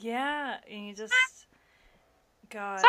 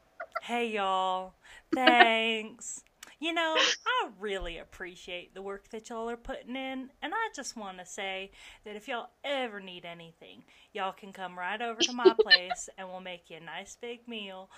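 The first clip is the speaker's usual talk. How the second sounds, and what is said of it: Put-on Southern twang. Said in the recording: “you can make up an accent ... throw a little twang in it”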